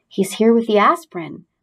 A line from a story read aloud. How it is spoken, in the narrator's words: whispered Mrs